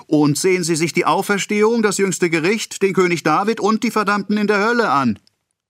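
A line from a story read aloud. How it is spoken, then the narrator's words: Guard calling after them. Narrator (German): rief der Schweizer nach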